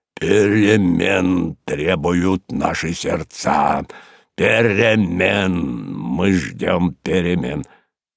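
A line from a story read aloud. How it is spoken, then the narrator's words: Deep booming voice. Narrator (Russian): пробасил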